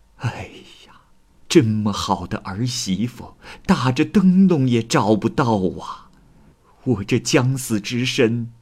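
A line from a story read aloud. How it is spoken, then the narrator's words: Sighing exclamation. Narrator (Chinese): 顾母感叹道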